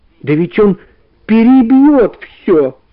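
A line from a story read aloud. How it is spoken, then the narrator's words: Shouting, tearful voice. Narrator (Russian): закричал он плачущим голосом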